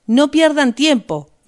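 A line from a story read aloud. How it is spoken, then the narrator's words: Shouted. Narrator (Spanish): gritó Rost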